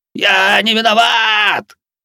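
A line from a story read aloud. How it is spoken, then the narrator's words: Frantic old man's scream. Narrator (Russian): истошно заорал старик на полу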